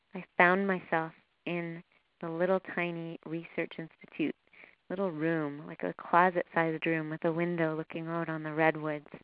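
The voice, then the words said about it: Canadian accent. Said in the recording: “My Canadian accent's popping out now”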